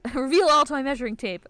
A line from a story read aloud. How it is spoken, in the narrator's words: Ayame shouts